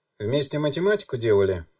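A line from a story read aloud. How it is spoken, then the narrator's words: Woman snorting. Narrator (Russian): фыркнула женщина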